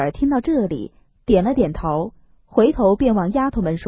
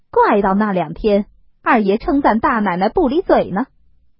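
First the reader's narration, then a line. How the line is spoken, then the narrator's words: Smiling. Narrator (Chinese): 凤姐儿笑了一笑，向平儿道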